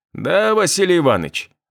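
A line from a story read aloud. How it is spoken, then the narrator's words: Cheerful reply. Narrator (Russian): отозвался всегда радостный Степаныч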